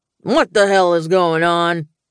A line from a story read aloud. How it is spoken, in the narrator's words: Dad rumbled